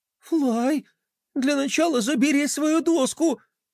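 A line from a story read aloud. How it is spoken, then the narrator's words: Trembling plea. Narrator (Russian): дрожащим голосом попросила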